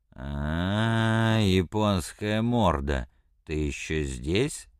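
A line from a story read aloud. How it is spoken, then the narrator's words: Drunken slurred voice. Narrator (Russian): сказал он пьяным голосом, едва шевеля ртом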